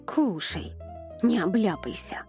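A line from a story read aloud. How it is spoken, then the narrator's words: Spiteful grumble. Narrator (Russian): злобно буркнула Лорик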